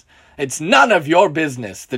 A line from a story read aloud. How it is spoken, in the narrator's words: the drunk man shouts in response